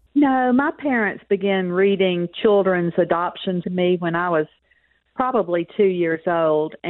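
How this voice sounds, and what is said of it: Southern US accent. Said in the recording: “I love the accent ... it's a Southern accent. I say I'm a Texan with a Southern accent”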